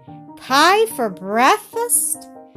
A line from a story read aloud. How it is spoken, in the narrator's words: cried Peter